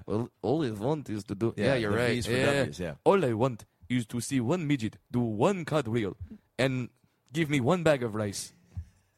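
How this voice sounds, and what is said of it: Attempted African accent, sounding Russian. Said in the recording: “if you want to do the African accent, now I am doing Godfrey, doing African accent ... See, that's Russian now.”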